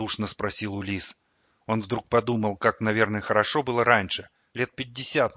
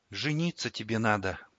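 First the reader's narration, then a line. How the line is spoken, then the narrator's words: Quiet. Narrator (Russian): тихо произнесла Ксана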